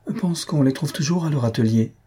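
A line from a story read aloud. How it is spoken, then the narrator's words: Timid. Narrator (French): dit timidement Madame Jujube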